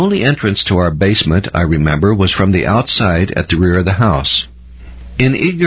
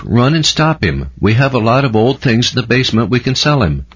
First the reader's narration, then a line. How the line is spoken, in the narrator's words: called out